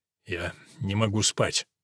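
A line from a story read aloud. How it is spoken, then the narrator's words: Jaguar's mutter. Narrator (Russian): пробормотал ягуар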